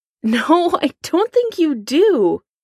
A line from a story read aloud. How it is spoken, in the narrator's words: Foggy Nelson laughs, a hysterical edge to his voice